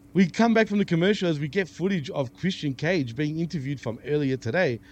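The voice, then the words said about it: Australian accent. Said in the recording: “some bot putting on a so-called Australian accent”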